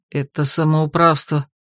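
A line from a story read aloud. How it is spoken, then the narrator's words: Grumbled. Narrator (Russian): буркнул Рат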